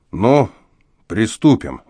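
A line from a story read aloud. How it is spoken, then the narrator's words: Gloomy. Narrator (Russian): мрачно проговорил он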